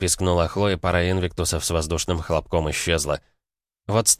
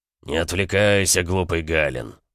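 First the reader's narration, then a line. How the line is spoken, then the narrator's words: Barked. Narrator (Russian): рявкнул Эмик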